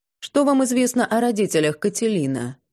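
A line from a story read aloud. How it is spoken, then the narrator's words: Hesitant, deliberately indifferent. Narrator (Russian): мэтр колебался, а потом произнес нарочито безразличным тоном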